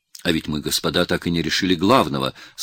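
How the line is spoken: Plain. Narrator (Russian): сказал Якубович

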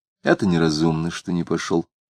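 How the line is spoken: Plain. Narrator (Russian): сказала мать

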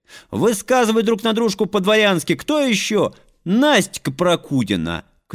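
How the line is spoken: Shouted. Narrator (Russian): крикнул кто-то

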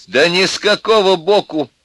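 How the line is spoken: Laughing. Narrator (Russian): сказала Алевтина и даже смеялся

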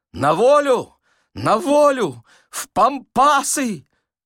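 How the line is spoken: Sick man's anguished cry. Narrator (Russian): больной страдальчески закричал

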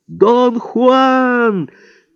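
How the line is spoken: Shouted three times. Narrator (Russian): трижды прокричал я

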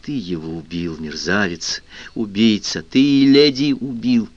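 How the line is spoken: Quiet near-hiss. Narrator (Russian): Фернан тихим голосом, чуть не шипя, сказал

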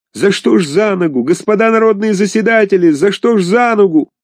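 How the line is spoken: Wild screaming. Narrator (Russian): Актер кричал диким голосом

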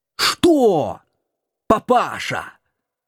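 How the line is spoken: Deafening shout, old man. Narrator (Russian): Оглушительно закричал дед

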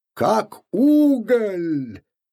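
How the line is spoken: Cheerful bark. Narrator (Russian): весело гаркнул Купфер

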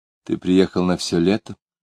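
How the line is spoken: Unusually tender question. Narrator (Russian): она спросила необычно ласково

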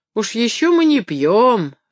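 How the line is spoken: Offended objection. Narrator (Russian): возразил видному мужчине один рыжий гость обиженным голосом

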